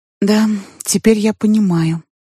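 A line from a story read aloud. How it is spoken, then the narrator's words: Sad longing answer. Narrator (Russian): отвечала я грустно, потому что мне хотелось бы быть с ним всегда, и тогда, и тем более сейчас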